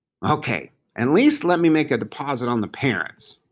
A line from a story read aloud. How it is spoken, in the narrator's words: Bongo grumbled